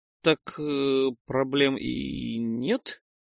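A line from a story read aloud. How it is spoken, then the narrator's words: Strained forced words. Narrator (Russian): С усилием выдавил из себя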